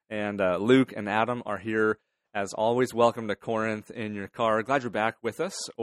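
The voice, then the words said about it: Voice sounds a little different. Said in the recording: “My voice is a little bit different. ... Fighting some spring allergies today”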